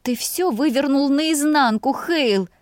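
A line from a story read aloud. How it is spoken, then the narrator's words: Moaned. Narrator (Russian): простонала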